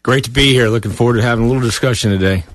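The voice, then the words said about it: Polished radio-announcer voice. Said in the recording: “Great radio voice.”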